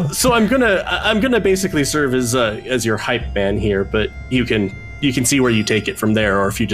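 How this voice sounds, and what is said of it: Usual voice. Nothing is said of it.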